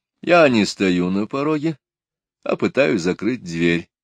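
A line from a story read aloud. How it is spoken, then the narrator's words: Calm explaining. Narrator (Russian): спокойно объяснил Шурф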